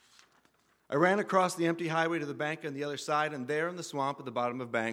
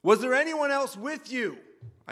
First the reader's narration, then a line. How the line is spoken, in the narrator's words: I shouted at the guy